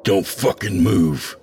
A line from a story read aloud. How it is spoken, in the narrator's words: I growl